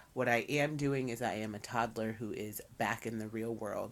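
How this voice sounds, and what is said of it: Voice sounds congested from a cold. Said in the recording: “please bear with me. I have a cold. I'm under the weather”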